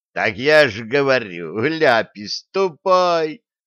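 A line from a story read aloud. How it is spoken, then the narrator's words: Convict's joyful yell. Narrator (Russian): радостно завопил зэка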